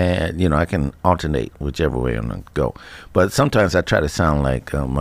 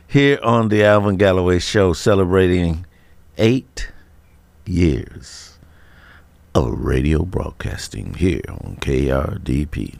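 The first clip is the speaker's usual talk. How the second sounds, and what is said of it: Sultry radio announcer voice. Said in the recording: “That's my sexy voice right there, my sexy radio voice.”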